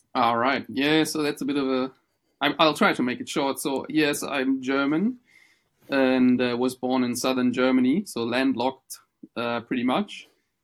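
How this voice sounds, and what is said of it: Non-Australian foreign accent. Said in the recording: “telling by your accent, you're not Australian”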